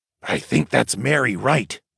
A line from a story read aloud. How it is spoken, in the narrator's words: Darwin whispered